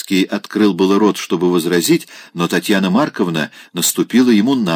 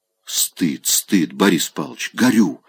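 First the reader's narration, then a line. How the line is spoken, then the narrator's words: Whisper. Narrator (Russian): шептала она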